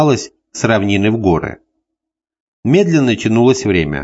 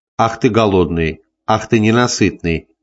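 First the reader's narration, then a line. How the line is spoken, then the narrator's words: Laughing. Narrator (Russian): смеялась Валерия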